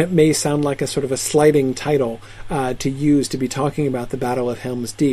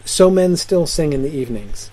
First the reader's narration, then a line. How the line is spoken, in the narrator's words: said Aragorn